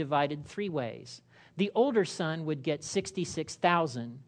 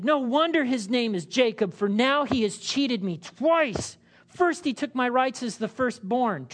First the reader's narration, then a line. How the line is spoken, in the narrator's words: Esau exclaimed